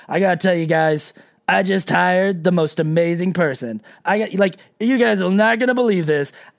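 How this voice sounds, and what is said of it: Deliberately poor Donald Trump impression. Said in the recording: “I'm not doing a very good Trump impression ... make him sound like a jackass ... I don't even want to do an accurate attempt at the voice”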